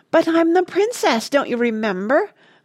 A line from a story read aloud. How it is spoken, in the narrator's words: I cried idiotically